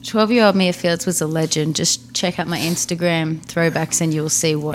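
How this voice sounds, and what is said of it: Australian accent. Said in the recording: “speaking Australian ... you're being influenced by my accent”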